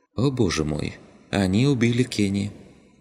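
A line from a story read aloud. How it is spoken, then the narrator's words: Sighing. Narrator (Russian): Вздохнула она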